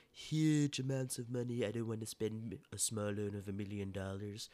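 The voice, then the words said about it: Donald Trump impression. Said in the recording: “my Donald Trump impression”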